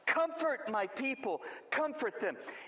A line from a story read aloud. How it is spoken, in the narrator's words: He shouts